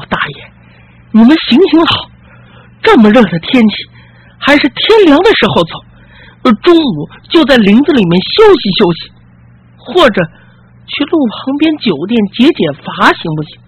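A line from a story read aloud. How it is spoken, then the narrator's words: Exhausted persistent pleading. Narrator (Chinese): 几个台夫累得浑身大汗，一个劲的哀求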